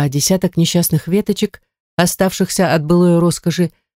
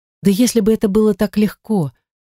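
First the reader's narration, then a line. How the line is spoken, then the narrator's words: Sighed. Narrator (Russian): вздохнула я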